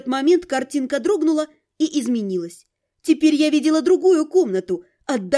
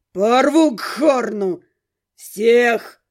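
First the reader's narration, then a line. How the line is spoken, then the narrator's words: Growling. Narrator (Russian): рычал второй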